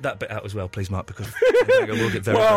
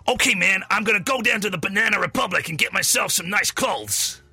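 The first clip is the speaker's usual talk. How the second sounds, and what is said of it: Gruff put-on New York American accent. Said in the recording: “Shall I do my American accent? ... Not bad ... This part of it makes it sound a little put-on ... It's from New York City ... it doesn't sound like New York City ... the enunciation is perfect ... you don't like the gruffness ... It just sounds like a character”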